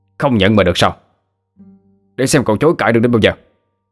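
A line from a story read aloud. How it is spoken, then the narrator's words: Angry shout. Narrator (Vietnamese): Một người quát lên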